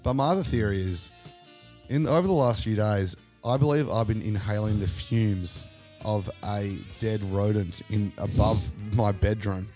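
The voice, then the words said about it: Hoarse, nasal sick voice. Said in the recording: “a little bit of a hoarse throat, a little bit of a nasally voice this week. Actually, a little bit sexy.”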